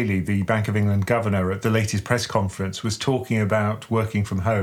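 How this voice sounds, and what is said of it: Usual voice. Nothing is said of it.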